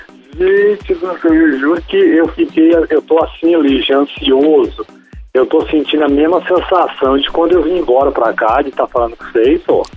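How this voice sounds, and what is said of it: Mineiro Brazilian Portuguese accent. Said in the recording (Portuguese): “Mineiro! ... Já te amo com esse sotaque.”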